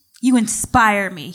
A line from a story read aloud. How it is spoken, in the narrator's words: he said, his voice dead serious